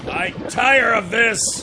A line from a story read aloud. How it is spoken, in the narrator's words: he yelled